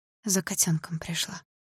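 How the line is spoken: Whisper. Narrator (Russian): прошептала я

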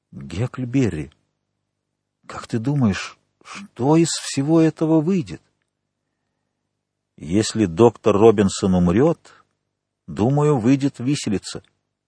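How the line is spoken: Quiet voice. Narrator (Russian): Том проговорил тихим голосом

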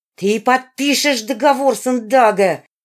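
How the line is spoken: Shouting. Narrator (Russian): закричала она

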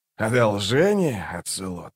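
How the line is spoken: Quiet laugh. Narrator (Russian): Он тихо рассмеялся

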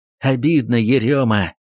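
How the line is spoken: Sorrowful grumble. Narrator (Russian): горестно пробурчал Кольцов

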